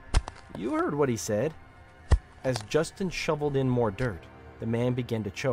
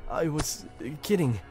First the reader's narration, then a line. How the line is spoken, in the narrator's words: he sputtered